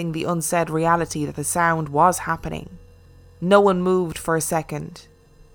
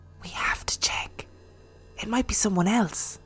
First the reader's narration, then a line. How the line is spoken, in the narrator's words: Serena whispered